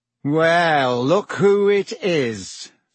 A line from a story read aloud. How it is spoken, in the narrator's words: said Malfoy in his usual lazy drawl